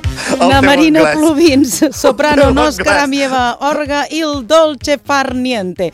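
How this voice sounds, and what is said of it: Put-on foreign accent reading names. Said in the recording (Catalan): “ja fas com un accent anglès ... El meu italià, també ... El teu italià, de nivell C”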